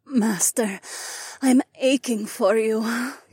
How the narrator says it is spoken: Nora moaned

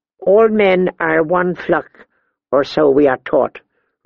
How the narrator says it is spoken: replied Miri Mazdur

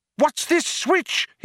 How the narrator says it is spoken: He cried

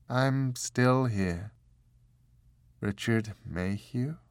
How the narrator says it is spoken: Her voice sounded almost detached

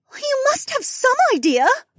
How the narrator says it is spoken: Becca cried

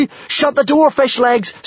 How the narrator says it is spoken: screeched Kamikaze and Hiccup

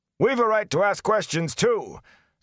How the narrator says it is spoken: somebody back in the crowd shouted

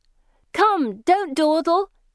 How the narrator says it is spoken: they shout merrily to the fourth girl

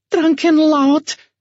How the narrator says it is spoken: floozy exclaimed

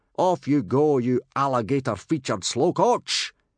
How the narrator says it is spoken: he roared

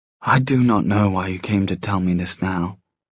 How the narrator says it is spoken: she murmured

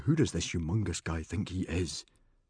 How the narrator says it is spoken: grunted Stoic, thinking

